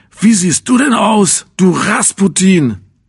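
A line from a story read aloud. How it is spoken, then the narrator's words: Shouting angrily. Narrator (German): schrie mich an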